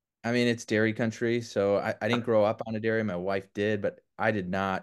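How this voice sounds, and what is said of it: Wisconsin accent. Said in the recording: “I can tell from your accent that's where.”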